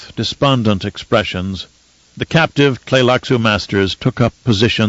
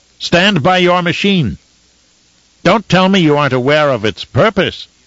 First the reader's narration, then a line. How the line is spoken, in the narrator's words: shouted at them